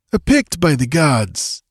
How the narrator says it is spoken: exclaimed the wayfarer

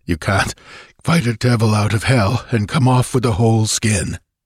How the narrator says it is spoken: he panted

